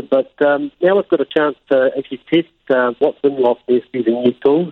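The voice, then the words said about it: New Zealand accent. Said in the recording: “your accent clearly screams New Zealand”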